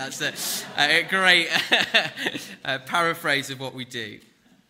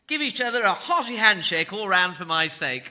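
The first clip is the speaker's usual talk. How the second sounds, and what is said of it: Posh BBC-style British accent. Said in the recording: “which you have to read in a kind of BBC accent”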